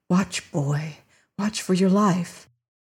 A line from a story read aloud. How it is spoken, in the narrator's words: whispered